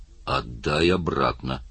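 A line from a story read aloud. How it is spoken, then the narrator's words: Grumbling. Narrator (Russian): проворчал Оттор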